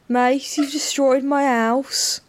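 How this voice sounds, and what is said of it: Sort of Brummy accent. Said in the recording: “I'm trying to think what accent he had. ... Don't really know what that is. It's sort of brummy.”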